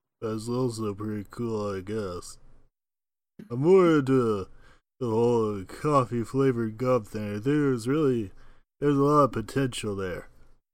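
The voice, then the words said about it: Faltering impression, sounds congested. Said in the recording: “Your Rocky impression, by the way, falling apart, turning into Brett Garrett with a cold.”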